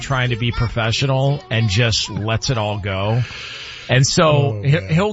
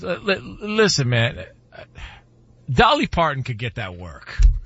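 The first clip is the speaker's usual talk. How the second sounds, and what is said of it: Impression, voice giving up mid-sentence. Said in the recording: “That's actually a great impression. ... You could hear the moment you gave up.”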